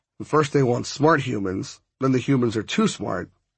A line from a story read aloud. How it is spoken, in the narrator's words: I grumbled